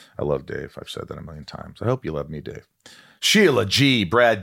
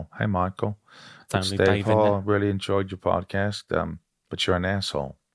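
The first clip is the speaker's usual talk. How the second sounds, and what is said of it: Imitates another person's voice. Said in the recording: “Trying to do my voice.”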